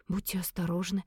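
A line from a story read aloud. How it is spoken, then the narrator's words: Hoarse voice. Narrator (Russian): севшим голосом проговорила я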